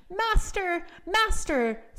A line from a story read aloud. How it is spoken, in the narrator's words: it cried out quite loud